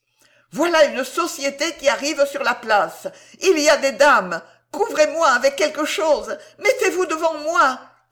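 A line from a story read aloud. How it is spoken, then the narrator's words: Shouted. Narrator (French): criait M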